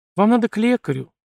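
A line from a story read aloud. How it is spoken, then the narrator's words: Gentle explanation, young woman. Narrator (Russian): мягко пояснила девушка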